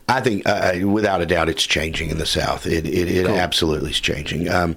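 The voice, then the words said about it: Southern American accent. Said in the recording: “people just hear that accent ... the Southern accent”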